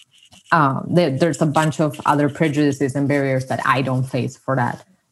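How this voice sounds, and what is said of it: Non-American accent in English. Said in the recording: “passing as white and American very easily, as long as I don't start talking ... my accent does give me away”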